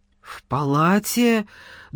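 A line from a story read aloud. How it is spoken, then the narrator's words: Trembling voice question. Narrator (Russian): дрогнувшим голосом переспросил Саша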